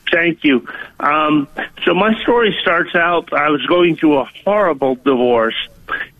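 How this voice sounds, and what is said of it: Sounds like from Minnesota. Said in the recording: “I suffered a stroke 6 months ago, so I sound like I'm from Minnesota. But when I've called you in the past, I sound like a Southern guy.”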